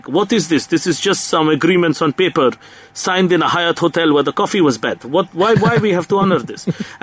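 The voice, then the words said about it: Exaggerated fake Russian accent. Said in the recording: “that is the worst Russian accent in the history of the world ... I enjoyed the Russian accent.”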